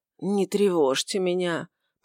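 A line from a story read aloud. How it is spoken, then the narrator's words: Barely audible mumble. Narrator (Russian): пробормотал он чуть слышно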